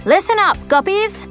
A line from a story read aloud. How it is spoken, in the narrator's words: yells Phoebe, our self-appointed arrow commander